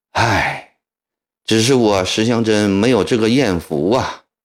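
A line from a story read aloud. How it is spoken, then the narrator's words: Sudden sigh. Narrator (Chinese): 石祥珍突然叹了一口气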